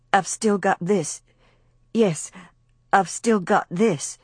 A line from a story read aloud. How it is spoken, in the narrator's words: she said over and over, parrot-like